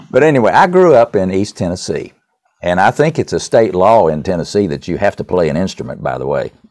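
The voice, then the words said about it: Tennessee accent. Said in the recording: “let them hear a Tennessee accent”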